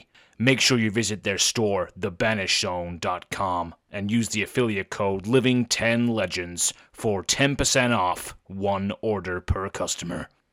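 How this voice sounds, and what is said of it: American accent. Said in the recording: “that American accent is killing me”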